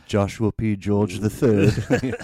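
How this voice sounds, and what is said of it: Put-on British accent. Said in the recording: “like, a British accent”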